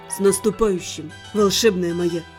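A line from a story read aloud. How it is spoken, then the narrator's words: Whisper. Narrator (Russian): шепнул Денис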